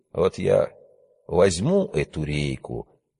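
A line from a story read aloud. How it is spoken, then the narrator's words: Quiet. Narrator (Russian): тихо сказал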